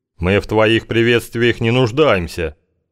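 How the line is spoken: Big man snorting. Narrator (Russian): фыркнул здоровяк, судя по голосу, перемещаясь в сторону, где находился Кузьма

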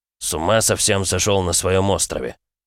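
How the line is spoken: Grumbling. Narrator (Russian): проворчал тот

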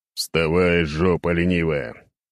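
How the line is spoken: Grumbling. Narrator (Russian): ворчал я

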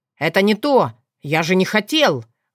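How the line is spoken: Loud. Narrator (Russian): громко сказал Сшайр, заглушая свои мысли

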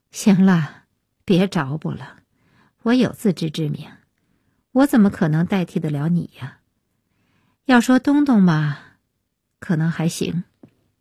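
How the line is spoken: With a laugh. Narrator (Chinese): 安夜一笑

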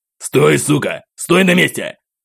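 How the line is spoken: Sudden soldier's roar. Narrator (Russian): Внезапно взрычал один из бойцов спецназа

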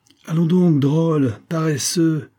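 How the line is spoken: Exclaiming. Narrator (French): s'écria-t-elle

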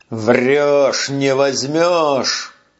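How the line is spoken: Growl. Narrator (Russian): прорычал он

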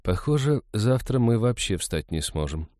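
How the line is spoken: Sigh. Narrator (Russian): вздохнула Иветта

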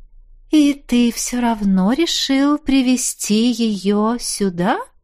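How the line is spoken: Insinuating, ingratiating. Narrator (Russian): Вкрадчиво поинтересовалась леди Эльмора

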